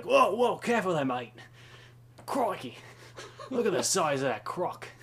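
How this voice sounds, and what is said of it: Australian accent impression. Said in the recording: “pretend to be Australian ... bad impression. ... No, the impression was good.”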